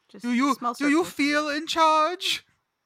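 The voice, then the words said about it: Bane movie villain impression. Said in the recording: “That was my Bane impersonation ... It was very good.”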